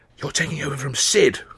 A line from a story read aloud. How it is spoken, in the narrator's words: I hissed